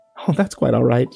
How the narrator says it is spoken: she said, giggling

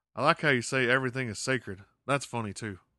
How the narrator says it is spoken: Dale laughs and says

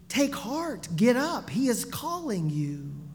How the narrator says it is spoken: Those who seconds earlier had been telling blind Bartimaeus to keep his mouth shut now exclaimed excitedly

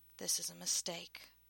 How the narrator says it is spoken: muttered a voice in the back of her head

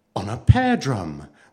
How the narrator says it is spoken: the girl answered, still speaking in a most cheerful voice

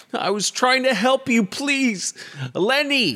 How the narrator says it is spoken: He's pleading

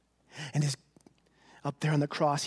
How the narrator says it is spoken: he cried

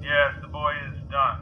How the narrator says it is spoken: mumbled Grok

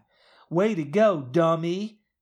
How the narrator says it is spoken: Maddie snaps

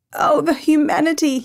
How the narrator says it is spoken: sobbed

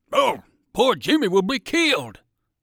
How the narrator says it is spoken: cried Percival

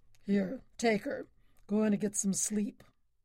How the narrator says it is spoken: he rumbled at Roy

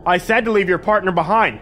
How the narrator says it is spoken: I shouted

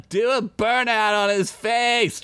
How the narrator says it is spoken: Chickpea yelled

